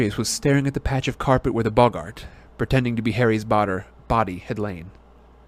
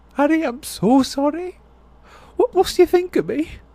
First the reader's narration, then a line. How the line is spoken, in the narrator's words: she said shakily